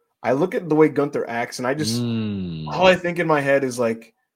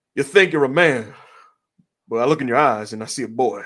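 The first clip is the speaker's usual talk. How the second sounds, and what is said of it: John Cena impression, Southern accent. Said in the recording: “the unusual John Cena Southern accent that some for some reason emerges”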